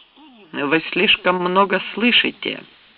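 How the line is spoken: Cold. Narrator (Russian): холодно сказал Фоллетт

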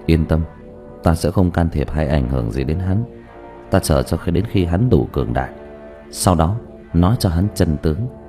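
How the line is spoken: Soft snort. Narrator (Vietnamese): Thanh y nhân hừ khẽ một tiếng

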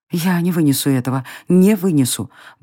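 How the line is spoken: Anxious muttering. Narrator (Russian): бормотала она, испугавшись того, что эта самая тревога не даст ей довести начатое до конца

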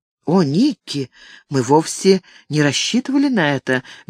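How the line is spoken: Soft exclamation. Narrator (Russian): мягким тоном воскликнула Франческа

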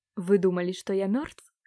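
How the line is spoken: Angry gurgling. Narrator (Russian): зло проклокотал Франсуа

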